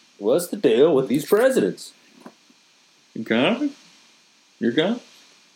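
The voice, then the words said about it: Bad impression of a comedian. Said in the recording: “a very bad Seinfeld impression”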